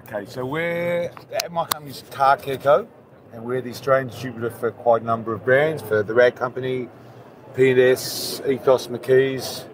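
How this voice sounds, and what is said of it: Slight Australian accent. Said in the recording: “is from Australia. You can sort of tell by the accent. He's got a small accent, not much.”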